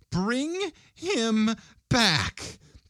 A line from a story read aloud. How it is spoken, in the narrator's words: cried the old woman